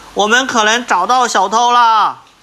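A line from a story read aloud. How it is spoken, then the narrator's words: Shout over the phone. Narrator (Chinese): 手机里传来另一个侦探的喊声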